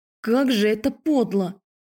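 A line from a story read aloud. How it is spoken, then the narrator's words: Breathed out. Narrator (Russian): выдохнула я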